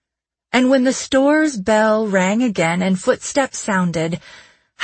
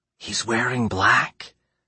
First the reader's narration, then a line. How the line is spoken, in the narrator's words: she whispered